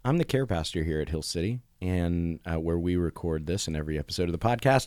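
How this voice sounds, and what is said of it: Hoarse, mostly lost voice. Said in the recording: “I have lost my voice mostly. ... my voice has changed just in those few seconds.”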